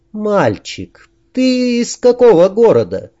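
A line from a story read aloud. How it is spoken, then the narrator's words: Sweet ingratiating voice. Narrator (Russian): Очень милым голосом, с вкрадчивыми интонациями, которых никогда в нем не замечалось, поддержала общий штурм Дина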